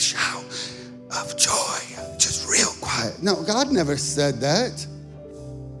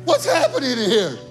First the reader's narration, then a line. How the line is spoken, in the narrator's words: Somebody shouted